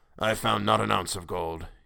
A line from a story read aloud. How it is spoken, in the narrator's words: he growled